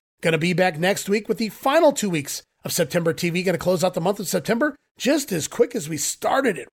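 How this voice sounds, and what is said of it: Nasal, congested voice. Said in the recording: “my voice is a little nasal sounding here this week. Blame it on the allergies.”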